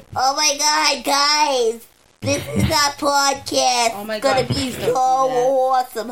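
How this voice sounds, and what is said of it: Exaggerated nasal imitation of another's voice. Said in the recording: “just speak real nasal ... do your Fran Drescher”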